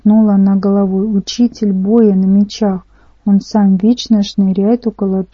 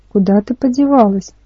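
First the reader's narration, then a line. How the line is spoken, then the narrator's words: Sigh. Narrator (Russian): Можжевелка вздохнула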